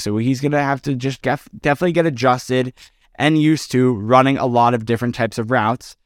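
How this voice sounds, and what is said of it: Tired, low-energy voice. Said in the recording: “you might not hear it in my voice because I'm super tired”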